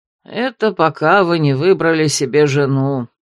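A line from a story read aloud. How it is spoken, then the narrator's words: Contemptuous, through teeth. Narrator (Russian): презрительно процедил Альтар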